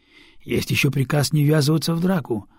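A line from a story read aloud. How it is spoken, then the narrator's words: Sighing. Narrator (Russian): вздохнул Усицкий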